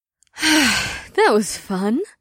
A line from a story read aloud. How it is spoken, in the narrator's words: Ash sighed lightly